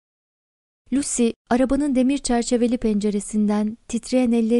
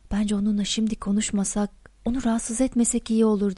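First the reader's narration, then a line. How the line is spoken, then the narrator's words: Whispered. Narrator (Turkish): diye fısıldadı Bayan Prose'a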